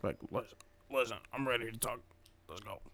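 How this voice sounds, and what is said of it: Weak, low-energy imitation of another person's voice. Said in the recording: “I think you got to put a little bit more energy into that impression... That's a little weak.”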